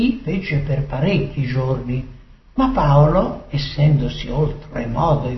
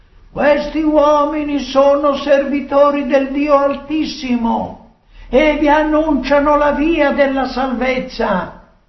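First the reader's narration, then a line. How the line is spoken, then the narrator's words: Female shouting. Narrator (Italian): Costei gridava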